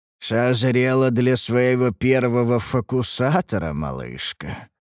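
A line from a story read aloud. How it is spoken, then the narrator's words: Old man's mumble. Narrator (Russian): пошамкал губами старый маг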